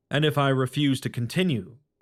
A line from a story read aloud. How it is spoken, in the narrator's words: Hedwig asked